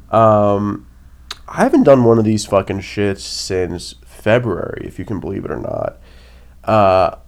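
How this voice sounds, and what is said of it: Nasal, congested voice. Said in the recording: “If I sound nasally, I'm coming off a cold”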